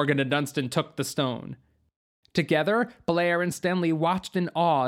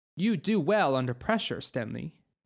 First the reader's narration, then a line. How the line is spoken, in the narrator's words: Blair said